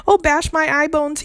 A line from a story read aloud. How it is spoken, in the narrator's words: he cried